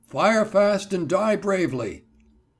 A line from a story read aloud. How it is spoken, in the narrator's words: in a loud voice, and then added